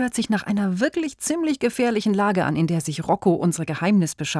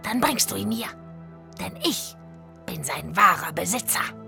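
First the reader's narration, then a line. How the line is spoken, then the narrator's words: Croaking. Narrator (German): krächzte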